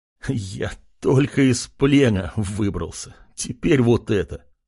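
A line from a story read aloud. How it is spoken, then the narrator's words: Pained laugh. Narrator (Russian): Артем страдальчески рассмеялся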